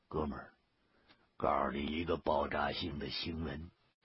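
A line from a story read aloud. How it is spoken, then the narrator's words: Hushed, secretive. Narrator (Chinese): 他 压低了嗓门，露出了挺神秘的样子，说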